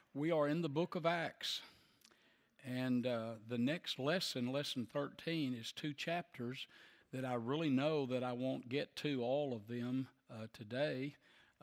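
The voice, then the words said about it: Slightly hoarse voice. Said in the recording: “I was still a little bit hoarse, but it's a little bit better”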